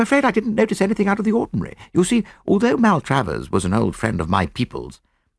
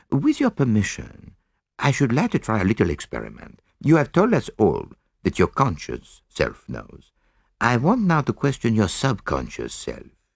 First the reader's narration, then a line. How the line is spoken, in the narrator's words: said gently